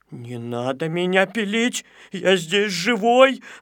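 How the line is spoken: Whimpering. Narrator (Russian): захныкал Незнайка

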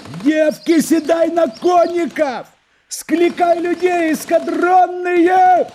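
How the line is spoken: Sudden wild shout. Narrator (Russian): сказал Вытягайченко и вдруг закричал дико

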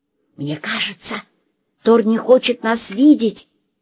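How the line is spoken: Whispered. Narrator (Russian): все же прошептала Лена

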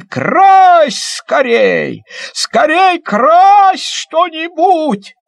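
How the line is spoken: Joyful shout. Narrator (Russian): Мишка обрадовался и как закричит

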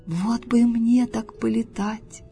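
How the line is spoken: Wistful sigh, toad. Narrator (Russian): вздохнула жаба

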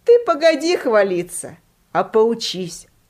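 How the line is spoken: Laughing teacher. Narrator (Russian): Учитель засмеялся и сказал

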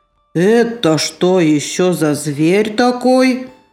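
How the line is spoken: Growling. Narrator (Russian): зарычала

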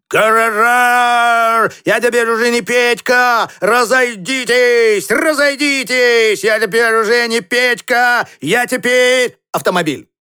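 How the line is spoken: Shouting. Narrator (Russian): бегал Петька по панели и кричал он

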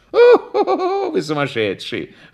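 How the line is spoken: Laughing. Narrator (Russian): засмеялся Прягин

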